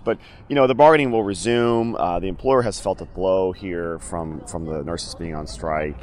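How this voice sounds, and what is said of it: Slightly hoarse, tired voice. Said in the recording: “I'm a little tired. My voice is a little hoarse.”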